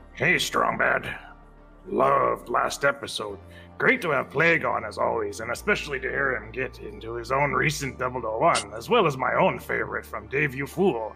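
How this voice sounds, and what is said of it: Cartoon character impression voice. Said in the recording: “My strong bad impression is going to, like, die almost immediately, and I'm going to keep doing whatever voice comes out”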